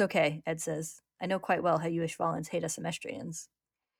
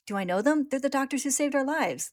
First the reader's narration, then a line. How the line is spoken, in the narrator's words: the boy says, excitedly